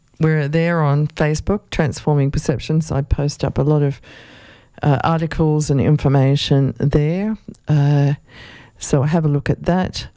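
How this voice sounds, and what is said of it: Hoarse, failing voice. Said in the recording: “losing my voice”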